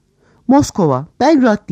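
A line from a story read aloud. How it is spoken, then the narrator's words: Group shouting. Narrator (Turkish): diye bağırıyorlardı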